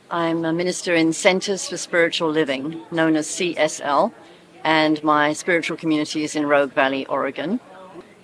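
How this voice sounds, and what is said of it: British English accent. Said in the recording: “You can hear from my accent, I'm not from America, I'm British.”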